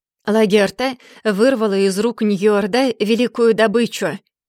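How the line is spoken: Loud. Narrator (Russian): громко проговорил

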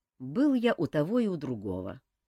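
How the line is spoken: Calm reply. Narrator (Russian): спокойно ответил Кантор

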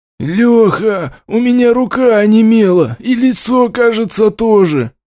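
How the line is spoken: Hoarse voice. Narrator (Russian): осипшим голосом произнес глава наряда

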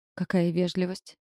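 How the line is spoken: Grumbling. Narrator (Russian): проворчала Пипа

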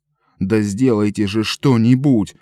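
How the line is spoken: Yelling. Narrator (Russian): вопил он

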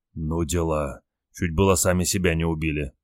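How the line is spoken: Shaken whisper. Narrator (Russian): прошептал побледневший Олег

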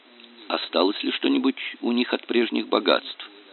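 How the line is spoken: Plain. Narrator (Russian): спросил Гольцов

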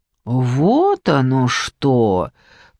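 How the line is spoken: Drawled. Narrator (Russian): протянула Надежда

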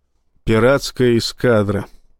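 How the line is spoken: Sad. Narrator (Russian): сказал Рашин, печально

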